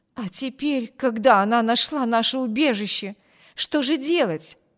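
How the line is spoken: Exclamation. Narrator (Russian): воскликнула женщина

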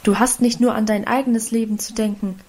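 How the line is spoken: Plain. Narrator (German): antwortete der Vater

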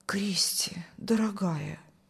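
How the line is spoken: Whisper. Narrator (Russian): шептал пастор

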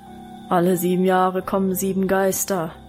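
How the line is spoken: Deep rumbling bass voice. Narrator (German): fiel Wilhelms Brummbass ein

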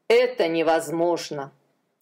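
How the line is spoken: Sighing. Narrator (Russian): Адонирам вздохнул

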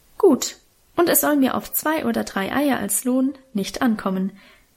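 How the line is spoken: Plain. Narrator (German): sagte die Bäuerin

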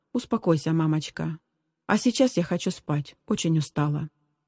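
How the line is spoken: Soft. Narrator (Russian): мягко сказала

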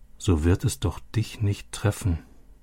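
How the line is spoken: Quiet repetition. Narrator (German): wiederholte Robby leise

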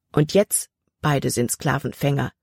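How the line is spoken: Plain. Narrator (German): antwortete Jordan

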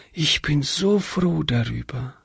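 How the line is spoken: Loving whisper. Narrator (German): flüsterte Hannchen

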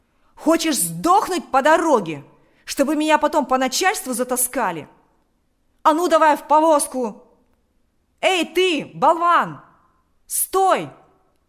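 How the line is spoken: Shouted. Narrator (Russian): закричал он кучеру

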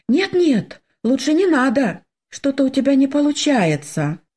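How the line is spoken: Timid. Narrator (Russian): робко сказала я

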